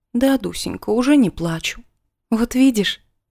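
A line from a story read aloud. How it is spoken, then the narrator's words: Smiling through tears. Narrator (Russian): улыбнулась я ей сквозь слезы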